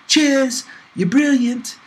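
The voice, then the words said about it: Charming British accent. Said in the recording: “thanking everyone in her charming British accent.”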